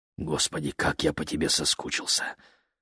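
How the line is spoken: Muffled murmur while kissing. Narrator (Russian): пробормотал он, не отрываясь от ее губ

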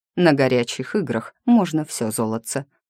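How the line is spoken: Plain. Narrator (Russian): ответил правитель

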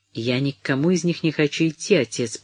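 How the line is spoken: Conciliatory, justifying. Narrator (Russian): примирительным тоном оправдывалась миссис Броуди

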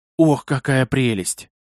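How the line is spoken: Breathless exclamation, girl. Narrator (Russian): выдохнула девушка

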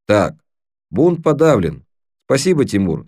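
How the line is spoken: Calm. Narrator (Russian): спокойно произнес Крис

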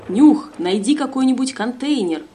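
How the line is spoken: Shouted. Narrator (Russian): Увидев ползунов, он крикнул

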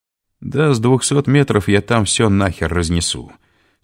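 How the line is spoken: Calm. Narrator (Russian): спокойно сказал

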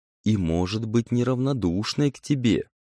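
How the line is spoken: Inner whisper of pride. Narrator (Russian): шептало самолюбие

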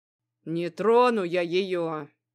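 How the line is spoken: Grumbled. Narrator (Russian): проворчал подошедший хозяин

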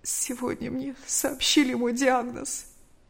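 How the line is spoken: Trembling, fearful, despairing answer. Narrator (Russian): Мария Ивановна подняла на нее глаза, полные страха и отчаяния, и дрожащим голосом ответила

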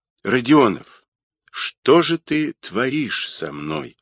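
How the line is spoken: Sigh. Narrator (Russian): вздохнула Ольга

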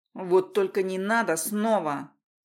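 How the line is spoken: Barked. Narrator (Russian): рявкнул

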